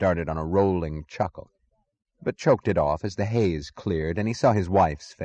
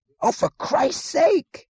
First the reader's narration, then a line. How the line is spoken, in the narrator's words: he screamed